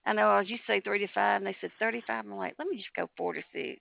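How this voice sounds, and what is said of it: Speaks with a regional accent. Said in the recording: “It's my accent.”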